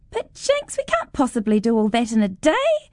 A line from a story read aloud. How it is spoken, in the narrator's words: Terry laughs